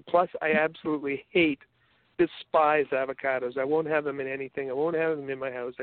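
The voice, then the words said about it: Canadian accent. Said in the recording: “I've got my whole Canadian accent”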